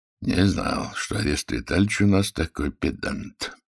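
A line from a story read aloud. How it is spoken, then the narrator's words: Joking grumble under breath. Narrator (Russian): шутливо проворчал генерал себе под нос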